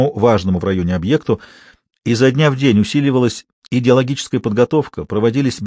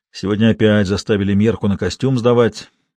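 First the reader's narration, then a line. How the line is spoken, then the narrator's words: Grumbling. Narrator (Russian): ворчал кто-то из милиционеров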